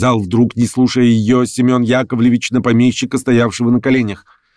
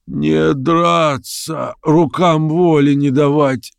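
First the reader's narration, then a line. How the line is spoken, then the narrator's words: Hoarse reply. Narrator (Russian): сипло отвечал помещик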